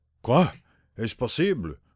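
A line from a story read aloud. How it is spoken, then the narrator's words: Stammering in disbelief. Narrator (French): bégaya-t-il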